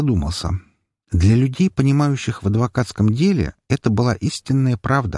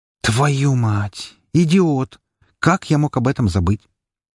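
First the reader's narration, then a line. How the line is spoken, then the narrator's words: Quiet cursing. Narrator (Russian): тихо выругался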